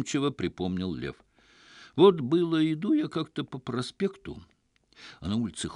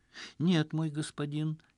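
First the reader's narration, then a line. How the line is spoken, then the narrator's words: Barely audible reply. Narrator (Russian): еле слышно донеслось в ответ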